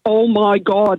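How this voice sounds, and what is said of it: Thick Derry Northern Irish accent. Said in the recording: “in a really thick Derry accent”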